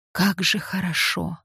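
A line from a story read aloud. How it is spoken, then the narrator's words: Hoarse whisper. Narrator (Russian): хрипло шепнул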